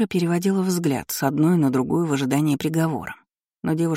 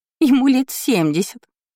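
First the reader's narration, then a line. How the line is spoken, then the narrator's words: Giggling. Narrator (Russian): хихикнула Жизель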